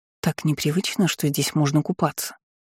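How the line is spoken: Muttered. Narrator (Russian): пробормотала я

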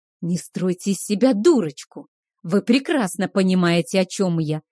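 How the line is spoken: Hiss. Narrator (Russian): прошипел Кейхар

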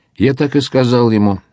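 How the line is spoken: Calm reply. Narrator (Russian): спокойно ответил Мигель

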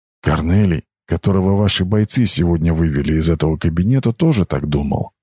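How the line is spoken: Quiet. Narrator (Russian): сказал он тихо

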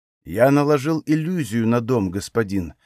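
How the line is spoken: Plain. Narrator (Russian): ответил он

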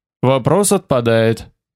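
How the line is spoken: Plain. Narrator (Russian): сказал я

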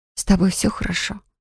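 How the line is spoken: Whispering. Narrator (Russian): прошептала я

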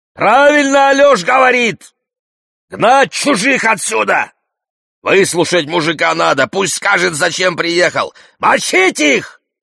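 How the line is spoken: Yelling, just woken up. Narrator (Russian): просыпается спящий, с просонок вопит

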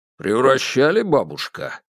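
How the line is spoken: Stern question. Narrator (Russian): строго спросил

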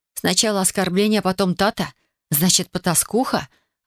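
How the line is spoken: Helpless muffled moan. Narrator (Russian): беспомощно застонала, пряча лицо в ладони

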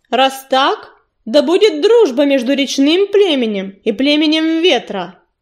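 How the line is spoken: Booming. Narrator (Russian): прогремел Огнезвезд

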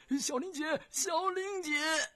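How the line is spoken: Tearful calling. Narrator (Chinese): 一个夹杂着哭声的呼唤

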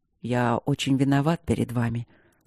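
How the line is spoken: Barely audible. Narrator (Russian): сказал Кембридж едва слышно

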